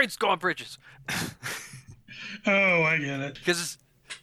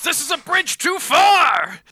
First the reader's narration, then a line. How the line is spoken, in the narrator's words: Freight Train yells